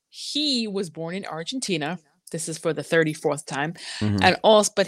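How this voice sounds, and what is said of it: Usual voice. Nothing is said of it.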